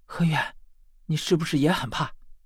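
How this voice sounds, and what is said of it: Quiet, hushed speaking. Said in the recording (Chinese): “小声地说”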